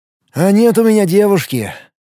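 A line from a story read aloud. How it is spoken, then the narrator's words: Heavy sigh. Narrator (Russian): тяжело вздохнул Тарас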